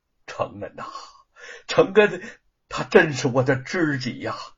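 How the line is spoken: Interested sigh. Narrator (Chinese): 卓恩波，他饶有兴致的细看了几遍，叹道

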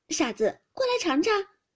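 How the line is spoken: Laughing. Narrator (Chinese): 湘云笑道

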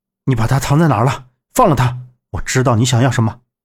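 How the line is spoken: Urgent anger. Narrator (Chinese): 杨木闻声一愣，急切的怒道

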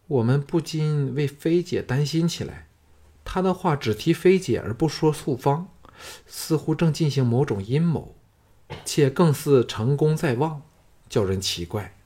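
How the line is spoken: Gentle. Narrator (Chinese): 石素芳柔声说

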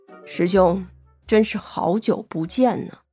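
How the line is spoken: Flat, indifferent tone. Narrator (Chinese): 赵学文对着庞清泉淡淡道

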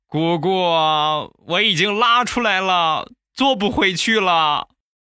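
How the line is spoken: Child crying. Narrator (Chinese): 小家伙当时就哭了

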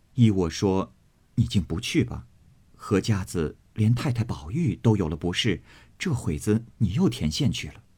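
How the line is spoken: Laughing. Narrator (Chinese): 平儿笑道

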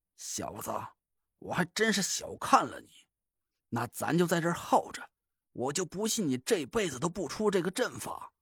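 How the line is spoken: Through gritted teeth. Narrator (Chinese): 他咬牙说道

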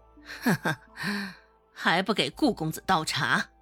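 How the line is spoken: Forced laugh, gritted teeth. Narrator (Chinese): 王氏还是保持着面上的和平，呵呵笑了两声，咬牙切齿的道

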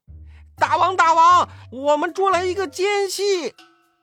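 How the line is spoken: Hurried, struggling. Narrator (Chinese): 太白金星 连忙挣扎着站起来说

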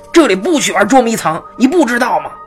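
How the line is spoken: Shouted, slightly guilty. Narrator (Chinese): 吼完自己也有点心虚

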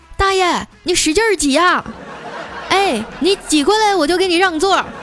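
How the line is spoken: Shouting toward door. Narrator (Chinese): 冲着门口大喊

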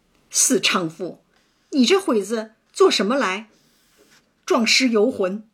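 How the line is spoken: Furious cursing. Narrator (Chinese): 香菱坏了一桩好事，薛蟠一腔恶怒骂道

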